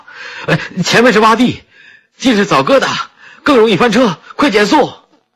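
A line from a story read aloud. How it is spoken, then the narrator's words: Loud shout. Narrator (Chinese): 他大叫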